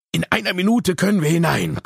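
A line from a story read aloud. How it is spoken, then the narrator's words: Breathless male panting. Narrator (German): keuchte er, als er wieder herausgestürzt kam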